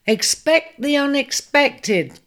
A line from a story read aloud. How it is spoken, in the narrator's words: cried Aquarius in jubilation